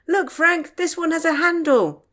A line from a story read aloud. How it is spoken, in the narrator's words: Tom called out